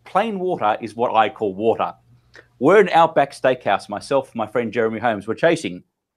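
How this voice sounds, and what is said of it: Mild Australian accent. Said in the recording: “comes an Australian ... because of my accent, it's not that strong ... It's a little bit, little bit neutral.”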